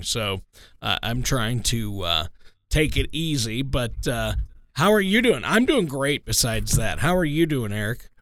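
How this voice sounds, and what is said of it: Slightly hoarse, weaker voice. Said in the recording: “Not your robust, jovial, full sound that you normally have. Yeah, you sound a little bit off today ... my voice was a little bit hoarse this morning”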